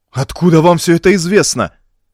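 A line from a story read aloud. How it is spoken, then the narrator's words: Exclaiming. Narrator (Russian): воскликнул Элвар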